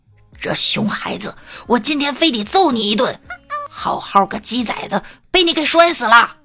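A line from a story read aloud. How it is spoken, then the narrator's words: Angry shouting. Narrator (Chinese): 嘴里还气愤地吼道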